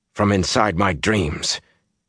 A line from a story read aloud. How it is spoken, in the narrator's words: he said harshly